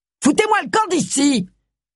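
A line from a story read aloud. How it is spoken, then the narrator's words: Sudden violent shout. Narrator (French): cria Jill avec une soudaine et surprenante violence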